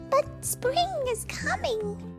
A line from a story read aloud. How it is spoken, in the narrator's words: Bird chirped